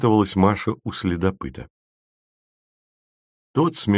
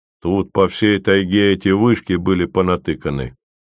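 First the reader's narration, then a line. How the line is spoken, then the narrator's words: Normal tone. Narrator (Russian): сказал Ви уже нормальным тоном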